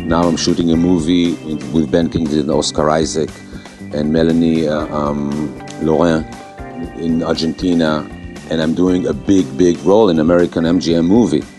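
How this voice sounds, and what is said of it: Non-native English accent. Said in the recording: “with your accent. ... With my accent”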